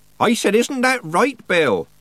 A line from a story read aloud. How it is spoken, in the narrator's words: Nanny repeated, raising her voice